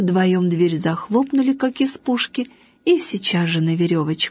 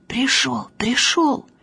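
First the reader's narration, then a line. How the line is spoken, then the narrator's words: Whispered shout. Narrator (Russian): Танька … шепотом кричит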